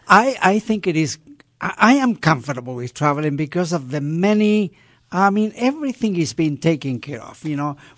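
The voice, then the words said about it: English spoken with a foreign accent. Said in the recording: “that's English with ... accent.”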